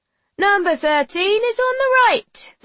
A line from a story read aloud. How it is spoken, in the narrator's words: the rickshaw driver hollers back